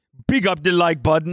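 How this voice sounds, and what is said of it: Put-on Jamaican patois accent. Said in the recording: “I was kind of trying to say it in an accent ... I was trying to do like a patois thing”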